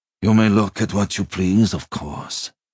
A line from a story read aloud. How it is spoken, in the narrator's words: he said, smiling sadly